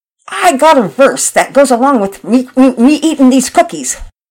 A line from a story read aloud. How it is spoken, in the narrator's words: With his mouth full, he blurted out